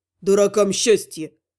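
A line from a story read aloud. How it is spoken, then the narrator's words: Grumbling, somewhat calmer. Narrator (Russian): проворчал немного успокоившийся Кан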